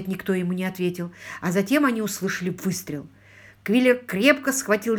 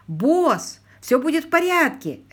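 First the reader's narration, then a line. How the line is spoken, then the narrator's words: Shouting again. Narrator (Russian): опять закричал Ленни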